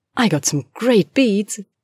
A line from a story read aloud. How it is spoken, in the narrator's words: said happily